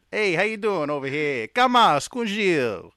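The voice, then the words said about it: Put-on Italian-American accent. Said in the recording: “my Italian accent”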